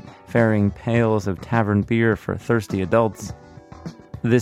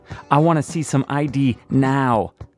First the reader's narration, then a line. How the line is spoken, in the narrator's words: the TV cop shouts